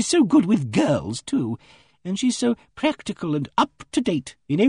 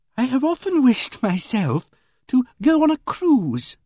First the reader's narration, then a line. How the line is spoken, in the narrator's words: said Emily Barton wistfully